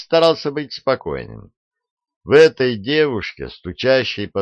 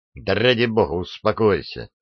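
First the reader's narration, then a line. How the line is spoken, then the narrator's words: Angry. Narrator (Russian): сердито ответил Адамс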